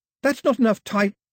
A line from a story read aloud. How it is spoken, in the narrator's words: She tried to shout